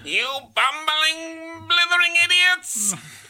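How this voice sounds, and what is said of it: Cartoon villain voice impression. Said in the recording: “And as Skeletor. ... That's a great impression.”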